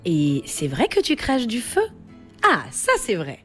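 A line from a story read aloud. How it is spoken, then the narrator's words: Creature answering cheerfully. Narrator (French): répond gaiement la créature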